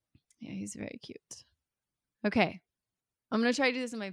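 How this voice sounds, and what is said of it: Usual voice. Nothing is said of it.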